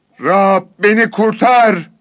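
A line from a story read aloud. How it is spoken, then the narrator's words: Shouted. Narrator (Turkish): diye bağırdı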